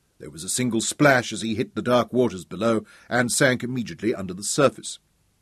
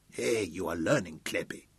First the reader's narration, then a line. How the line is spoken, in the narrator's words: Aberley hissed